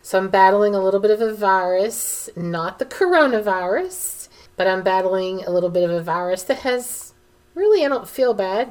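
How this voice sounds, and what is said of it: Raspy, froggy voice. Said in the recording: “my voice sounds a little raspy, a little froggy... losing my voice”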